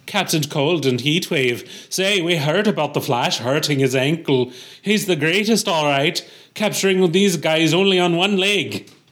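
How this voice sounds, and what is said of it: Put-on Irish accent, fairly decent. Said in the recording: “this must be an Irish cop ... That was pretty good for me, for Irish ... Sure, that was pretty good. Yeah, not great”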